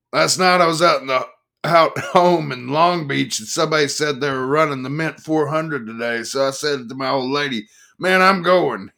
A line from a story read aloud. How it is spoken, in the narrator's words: he laughed